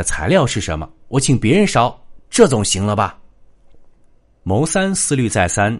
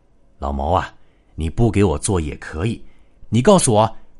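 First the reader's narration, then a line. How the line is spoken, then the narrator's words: Humble, suppressed anger. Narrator (Chinese): 马老九气得真想一枪崩了他，可是又舍不得那道神仙汤，没办法，只好低声下气的说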